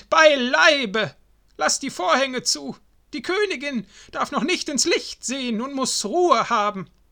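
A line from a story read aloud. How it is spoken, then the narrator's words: Old woman calls quickly. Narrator (German): rief die Alte geschwind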